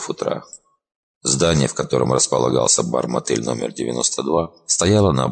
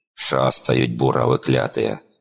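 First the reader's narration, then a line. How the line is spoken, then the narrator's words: Grumbling, strong Ukrainian accent. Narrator (Russian): проворчал он с сильным украинским акцентом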